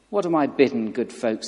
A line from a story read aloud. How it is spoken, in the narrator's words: cried